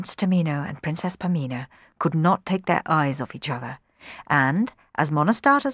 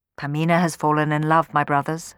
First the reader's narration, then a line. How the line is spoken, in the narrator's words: Sarastro said